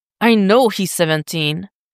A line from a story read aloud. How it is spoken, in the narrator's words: Dick growls right back